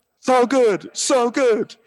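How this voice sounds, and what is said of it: Bad singer impression. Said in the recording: “my bad Neil Diamond impression”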